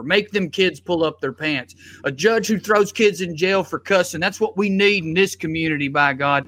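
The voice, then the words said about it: Put-on Southern US accent. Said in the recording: “I did the Southern accent”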